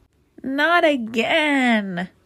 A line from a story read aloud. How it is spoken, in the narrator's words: cried Winnie